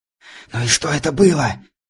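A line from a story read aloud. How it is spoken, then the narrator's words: Breathless whisper. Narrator (Russian): прошептал я, пытаясь отдышаться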